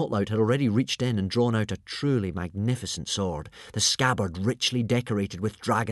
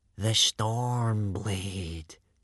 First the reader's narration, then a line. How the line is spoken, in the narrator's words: breathed Baggy Bum the beer belly